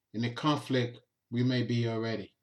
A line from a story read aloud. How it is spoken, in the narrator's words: Jack calmly says